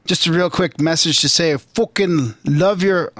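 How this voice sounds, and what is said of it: Attempted English accent. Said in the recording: “I'm trying to do my English accent.”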